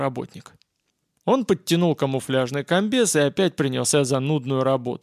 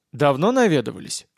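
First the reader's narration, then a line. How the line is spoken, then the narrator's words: Calm question. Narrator (Russian): уже спокойно спросил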